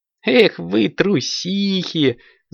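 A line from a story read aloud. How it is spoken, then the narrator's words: Laughing. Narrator (Russian): засмеялась Аленка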